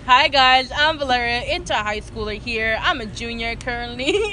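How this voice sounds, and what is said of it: Radio announcer voice. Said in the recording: “That voice. You got that radio voice.”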